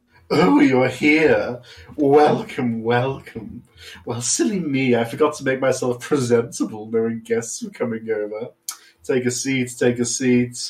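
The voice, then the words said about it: Fancy villain character voice. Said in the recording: “very good fancy villain voice”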